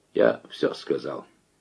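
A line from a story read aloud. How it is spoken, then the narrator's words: Quiet reply. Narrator (Russian): тихо ответил Майданников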